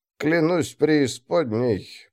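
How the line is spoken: Muttered. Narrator (Russian): пробормотал Гийом

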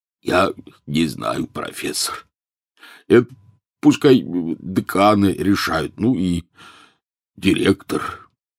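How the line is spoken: Hoarse, tearful croak. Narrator (Russian): Хагрид, все это время молча проплакавший в свой гигантский платок, прохрипел

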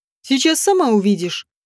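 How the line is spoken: Smirking grunt. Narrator (Russian): хмыкнул Тревор

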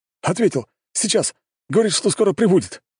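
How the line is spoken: King, joyful exclamation. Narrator (Russian): радостно воскликнул король

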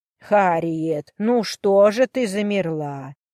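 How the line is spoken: Silky, insinuating hostess question. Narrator (Russian): вкрадчиво поинтересовалась хозяйка дома

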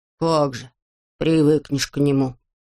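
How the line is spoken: Sulky grumble. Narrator (Russian): насупившись, проворчал Ворчун

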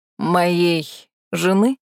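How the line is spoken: Icy tone. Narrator (Russian): морозным тоном уточнил небожитель

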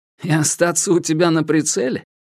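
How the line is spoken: Short laugh. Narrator (Russian): коротко рассмеялся в ответ Соломон

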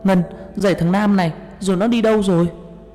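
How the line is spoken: Shouting. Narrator (Vietnamese): Tôi la lên

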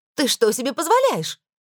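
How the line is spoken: Shrieked. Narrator (Russian): взвизгнула

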